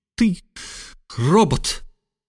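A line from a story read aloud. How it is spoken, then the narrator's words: Sobbing. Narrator (Russian): всхлипнула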